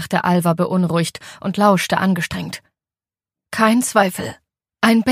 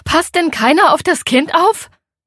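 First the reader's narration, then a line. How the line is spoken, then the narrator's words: Calling out across distance. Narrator (German): rief zum Ufer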